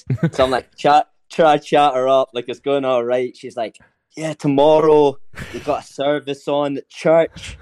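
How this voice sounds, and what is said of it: Scottish accent. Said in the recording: “I'm Scottish ... I've got the Scottish accent.”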